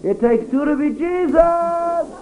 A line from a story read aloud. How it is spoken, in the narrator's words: I would holler